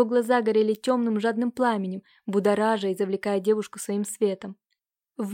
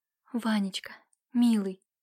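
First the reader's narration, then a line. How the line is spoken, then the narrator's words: Tender whisper. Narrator (Russian): прошептала она с нежностью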